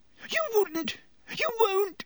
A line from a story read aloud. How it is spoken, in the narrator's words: gasped Pettigrew